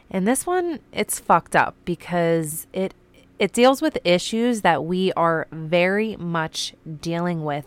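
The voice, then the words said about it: Raspy, slightly sick-sounding voice. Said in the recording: “I got really sick. You can probably still hear it in my voice a little bit. My voice is always raspy, though. So sorry if it's a little bit worse.”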